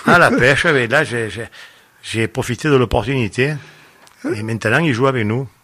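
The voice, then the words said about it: Marseille accent. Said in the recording (French): “il a l'accent, le véritable accent de Marseille ... il avait l'accent des quartiers nord de Marseille ... il a le même accent que moi”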